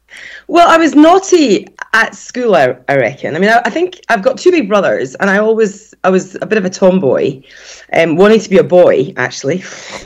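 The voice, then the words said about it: Scottish Edinburgh accent. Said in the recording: “as we can already guess from your accent, you were born and raised in Edinburgh”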